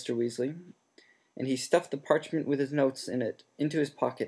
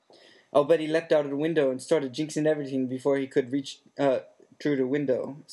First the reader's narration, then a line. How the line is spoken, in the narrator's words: said Mr